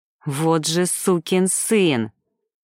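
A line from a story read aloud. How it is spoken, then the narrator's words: Angry hiss. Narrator (Russian): злобно прошипел Макс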